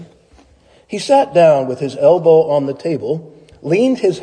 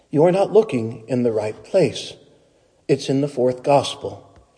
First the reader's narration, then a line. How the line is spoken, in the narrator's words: she whispered sternly